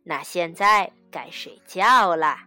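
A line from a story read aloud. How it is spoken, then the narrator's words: Smiling. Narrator (Chinese): 爸爸笑着说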